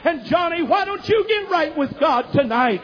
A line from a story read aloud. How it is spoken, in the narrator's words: I pleaded with him with tears streaming down my face